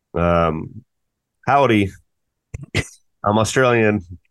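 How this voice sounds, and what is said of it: Poor Australian accent, sounds American western. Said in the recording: “What's your best Australian accent? ... Your Australian sounds a lot like most people's Wyoming.”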